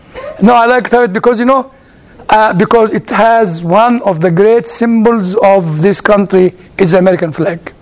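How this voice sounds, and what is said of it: Non-native English accent. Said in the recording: “I'm not American, you can tell from my accent.”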